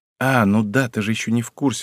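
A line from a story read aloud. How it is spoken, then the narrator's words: Sighing. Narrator (Russian): вздохнул я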